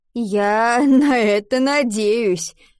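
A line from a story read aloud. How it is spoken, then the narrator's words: Laughing. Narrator (Russian): засмеялся Адам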